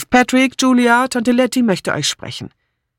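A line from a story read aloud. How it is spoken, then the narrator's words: Call. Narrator (German): Philippa ... rief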